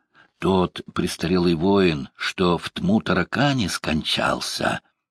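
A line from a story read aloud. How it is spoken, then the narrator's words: Drunken monk whispering. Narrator (Russian): Пьяный монах Лаврентий шептал ему на ухо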